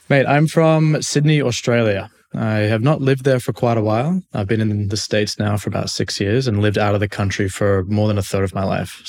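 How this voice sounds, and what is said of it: Mild Australian accent. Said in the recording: “Love your accent... the accent's not as strong as some other Aussies out there”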